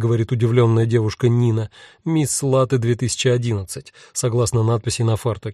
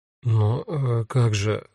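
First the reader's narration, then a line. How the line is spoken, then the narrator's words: Confused mumble. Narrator (Russian): растерянно бормочу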